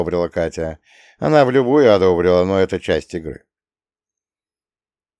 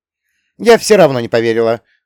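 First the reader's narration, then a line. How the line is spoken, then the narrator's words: Scoffing snort. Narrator (Russian): фыркнула она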